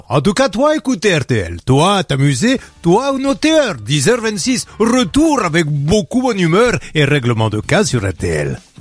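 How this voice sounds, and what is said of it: Put-on foreign accent, broken French. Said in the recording (French): “j'ai trouvé un nouvel accent”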